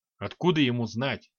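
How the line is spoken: Snort. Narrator (Russian): хмыкнул

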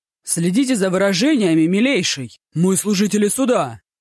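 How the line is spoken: Shouted. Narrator (Russian): крикнул слуге

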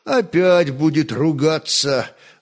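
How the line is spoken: Sighing. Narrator (Russian): вздохнул Святослав

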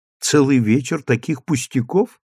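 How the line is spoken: Plain. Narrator (Russian): сказала она

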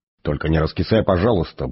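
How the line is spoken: Gruff mutter. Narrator (Russian): буркнул Форд

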